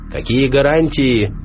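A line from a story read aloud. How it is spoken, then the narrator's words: Shouted out. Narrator (Russian): выкрикнул тот же самый голос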